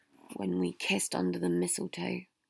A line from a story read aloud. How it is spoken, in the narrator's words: Harry sighed out